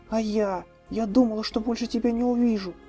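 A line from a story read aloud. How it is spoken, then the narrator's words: Agitated reply. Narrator (Russian): взволнованно ответила она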